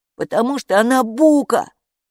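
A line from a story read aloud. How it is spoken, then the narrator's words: Snapping back. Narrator (Russian): огрызнулся Капо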